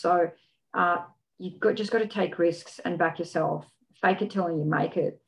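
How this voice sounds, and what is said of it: Australian accent. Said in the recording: “your Australianisms ... how to speak Australian”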